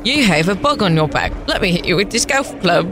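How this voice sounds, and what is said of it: Put-on different accent. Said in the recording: “She's doing an accent. ... She was just doing a different accent.”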